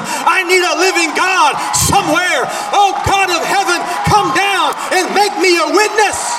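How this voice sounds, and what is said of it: Shouting. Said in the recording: “I'm sorry I'm shouting.”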